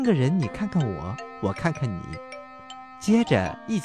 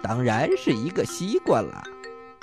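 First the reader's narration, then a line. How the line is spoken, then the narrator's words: Smiling. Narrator (Chinese): 小猪笑了笑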